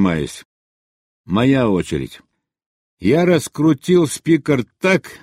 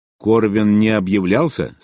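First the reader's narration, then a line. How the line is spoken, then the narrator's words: Plain. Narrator (Russian): спросил я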